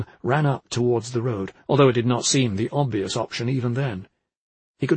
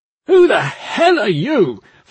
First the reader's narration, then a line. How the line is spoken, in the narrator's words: Flink bellowed with surprising aggression